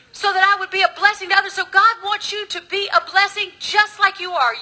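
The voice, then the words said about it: Mixed Southern US accent. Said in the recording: “I got the most messed up accent. People look at me and go, Where are you from? A little bit of Texas, a little bit of Louisiana, a little bit of North Carolina sprinkled in.”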